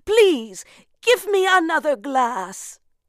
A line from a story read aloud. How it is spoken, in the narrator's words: she cried